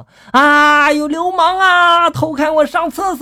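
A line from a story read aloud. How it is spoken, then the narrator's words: Shouting. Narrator (Chinese): 大喊了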